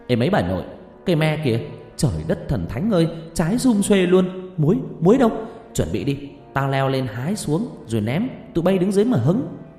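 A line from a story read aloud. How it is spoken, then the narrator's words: Shouting boy. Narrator (Vietnamese): thằng Tam hét lên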